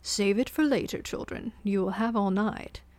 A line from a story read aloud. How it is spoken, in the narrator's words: said with a chuckle